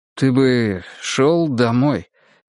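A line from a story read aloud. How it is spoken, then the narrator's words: Uncertain. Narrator (Russian): неуверенно сказал Ломов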